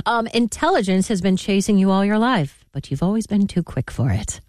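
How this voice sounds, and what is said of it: Put-on British accent. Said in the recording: “I want to read some of these in a British accent.”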